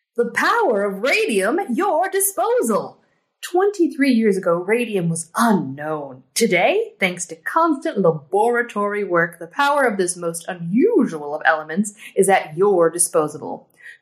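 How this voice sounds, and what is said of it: Old-timey radio announcer voice. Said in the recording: “my old-timey radio voice”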